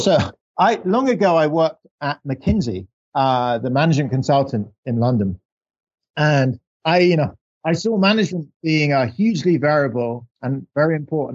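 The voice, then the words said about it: English accent. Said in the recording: “people would hear my English accent”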